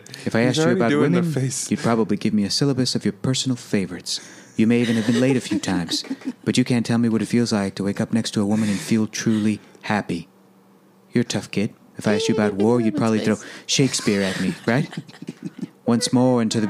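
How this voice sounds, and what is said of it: Robin Williams impression. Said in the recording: “I'm going to try Robin Williams.”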